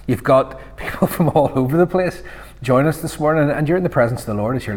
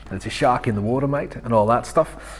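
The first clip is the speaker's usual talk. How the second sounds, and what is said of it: Weak put-on Australian accent. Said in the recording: “Australian accent not really good”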